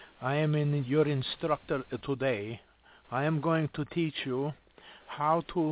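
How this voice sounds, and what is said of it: Usual voice. Nothing is said of it.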